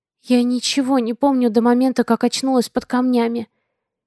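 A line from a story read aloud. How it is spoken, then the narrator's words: Quiet. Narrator (Russian): негромко ответила я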